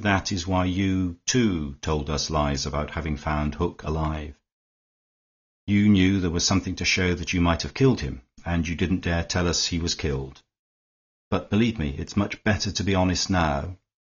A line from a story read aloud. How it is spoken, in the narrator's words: went on Fisher smoothly